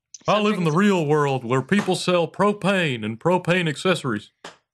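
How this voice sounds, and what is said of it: Impression of cartoon character Hank Hill. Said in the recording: “Was that Hank Hill? ... Is that him, or is that somebody doing his voice? ... that was an impression. ... sounded 90% like him. That's really good.”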